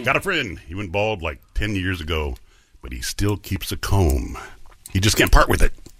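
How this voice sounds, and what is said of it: Deep male voice. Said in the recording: “sexy man with a deep voice”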